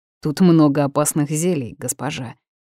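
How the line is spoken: Spoken through gritted teeth. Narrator (Russian): процедил

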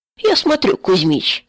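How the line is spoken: Laughing loudly. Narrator (Russian): хохотал Витька

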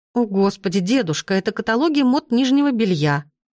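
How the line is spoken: Exclaiming. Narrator (Russian): воскликнула я

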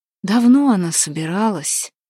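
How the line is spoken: Sighing, openly upset. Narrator (Russian): вздохнул Куприян, которому незачем было скрывать свое огорчение

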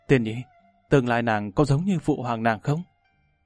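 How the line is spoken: Wistful muttered question. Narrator (Vietnamese): trong lòng Lâm Văn Vinh có một cảm giác nói không lên lời, lẩm bẩm hỏi

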